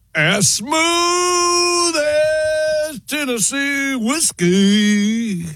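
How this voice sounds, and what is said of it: Sings with a put-on accent. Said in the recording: “Wow, that's an accent.”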